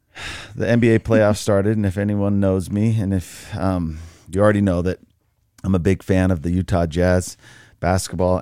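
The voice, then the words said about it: Raspy voice. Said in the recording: “my voice is a little raspy ... He's got that rasp ... my voice is a little raspy this morning because of it”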